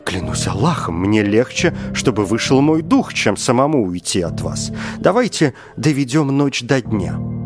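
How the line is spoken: Exclaimed, porter. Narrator (Russian): носильщик воскликнул

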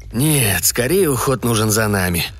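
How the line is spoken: Gloomy. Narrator (Russian): мрачно ответил Коппер

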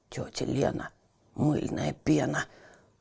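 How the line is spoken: Grumbled. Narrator (Russian): проворчал Петя

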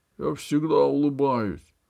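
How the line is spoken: Gruff guard's mutter. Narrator (Russian): буркнул стражник

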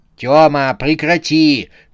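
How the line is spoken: Wife shouting. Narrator (Russian): крикнула на него жена

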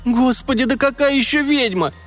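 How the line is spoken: Teacher's startled cry. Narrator (Russian): вскрикнула училка

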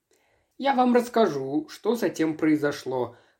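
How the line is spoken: Gloomy. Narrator (Russian): мрачно ответил Фьен

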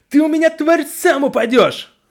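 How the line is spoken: Furious woman shouting. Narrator (Russian): выкрикнула Завуч

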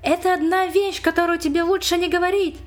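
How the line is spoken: Exclaimed. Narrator (Russian): Эд воскликнул

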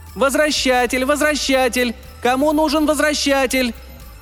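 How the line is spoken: Shrill repeated shouting. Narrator (Russian): продолжала она выкрикивать тонким голосом

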